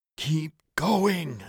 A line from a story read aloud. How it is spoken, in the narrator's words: internally plead